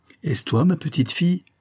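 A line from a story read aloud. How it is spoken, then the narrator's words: Cried out. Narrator (French): s'écria celle-ci dès qu'elle fut apportée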